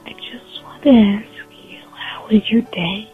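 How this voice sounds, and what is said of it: Whispering, very quiet voice. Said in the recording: “Why are we whispering? ... Speak up.”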